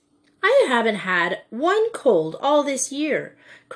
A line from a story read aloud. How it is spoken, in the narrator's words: cried Joey in injured tones